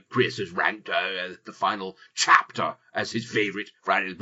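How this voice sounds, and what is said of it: Imitates another person's voice. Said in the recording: “my Boris impression ... it's like Boris was in the room”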